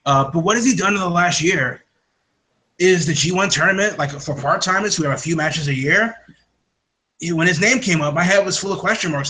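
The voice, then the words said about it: Put-on Japanese accent. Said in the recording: “this is my Japanese accent for you people.”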